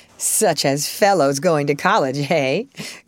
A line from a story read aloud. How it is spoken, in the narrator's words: cut in Laurie with a suggestive laugh